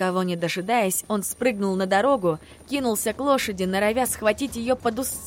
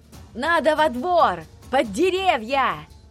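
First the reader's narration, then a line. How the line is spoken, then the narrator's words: Shouting. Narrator (Russian): кричал Дэн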